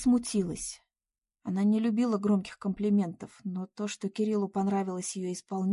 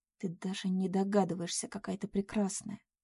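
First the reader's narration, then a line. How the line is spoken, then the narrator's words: Quiet. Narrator (Russian): тихо сказал Кирилл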